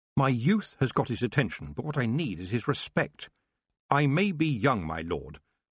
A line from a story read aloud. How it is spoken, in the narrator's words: she said firmly